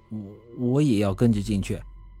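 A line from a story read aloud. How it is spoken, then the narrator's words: Calm, flat. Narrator (Chinese): 扎克杰突然走到我和胡老头面前，淡淡的说了句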